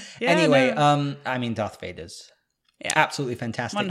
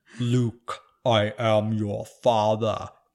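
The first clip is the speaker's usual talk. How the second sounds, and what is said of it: Deep booming imitated movie villain voice. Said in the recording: “amazing booming, voice ... Wow, that was pretty good ... I actually can do impersonations ... That was pretty good.”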